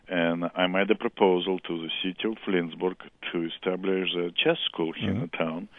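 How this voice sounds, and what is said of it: Strong Russian accent. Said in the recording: “that's not a Kansas accent ... I have strong non-Kansas accent ... I'm originally from Russia.”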